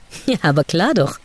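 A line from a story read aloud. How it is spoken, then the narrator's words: Laughing. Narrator (German): lachte er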